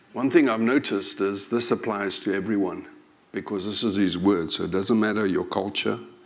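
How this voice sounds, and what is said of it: African English accent. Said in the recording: “By now, you know my accent. If you know me well, I'm from Africa... Can't live for 40 years in the country and think I'm going to sound like BBC English.”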